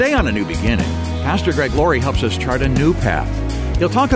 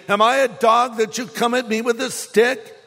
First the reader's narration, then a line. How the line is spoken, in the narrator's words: Sneering in contempt at this ruddy-faced boy, he roared at David